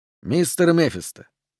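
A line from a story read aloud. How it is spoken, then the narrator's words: Quiet, FBI agent. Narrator (Russian): негромко произнес агент ФБР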